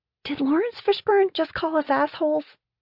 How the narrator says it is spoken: I whispered to Michael

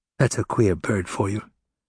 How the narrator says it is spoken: Combeferre whispered to Enjolras

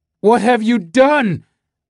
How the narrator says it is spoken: cried Charlie

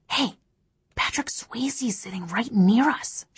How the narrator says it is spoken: she whispered

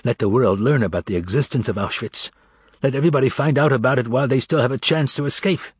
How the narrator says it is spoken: One of them was muttering

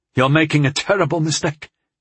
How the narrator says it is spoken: I gasped

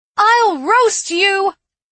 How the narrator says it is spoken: I shouted at the king

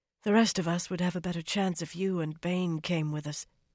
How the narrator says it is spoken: she said in a low voice

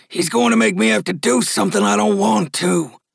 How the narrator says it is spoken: grumbled the sheriff

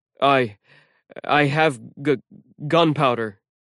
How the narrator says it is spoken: TJ stuttered

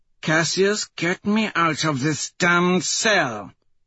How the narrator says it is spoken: Antonia hisses

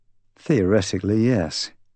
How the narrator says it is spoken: I sighed

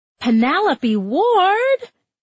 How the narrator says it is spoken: Mindy Parker bellowed

